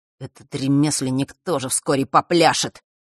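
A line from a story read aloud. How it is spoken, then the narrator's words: Vengeful mutter. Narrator (Russian): мстительно бормотал Марк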